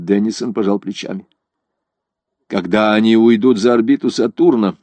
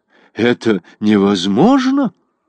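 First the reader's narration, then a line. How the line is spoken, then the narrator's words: Alarmed exclamation. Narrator (Russian): с тревогой воскликнул Годштейн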